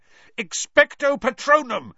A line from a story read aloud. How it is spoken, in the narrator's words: Harry yelled